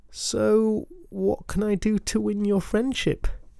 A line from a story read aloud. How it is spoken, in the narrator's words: He asked, desperately, but without much hope